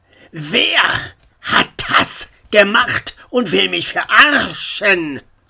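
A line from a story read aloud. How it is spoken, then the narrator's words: Lion-like roar. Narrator (German): Sein Brüllen klang wie ein Löwe, der auf der Suche nach einem Opfer war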